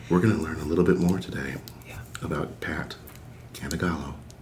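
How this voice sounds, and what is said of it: NPR-style radio announcer voice. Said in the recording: “I almost feel like I slipped into like an NPR kind of radio voice.”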